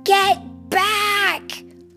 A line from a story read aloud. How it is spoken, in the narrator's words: hollered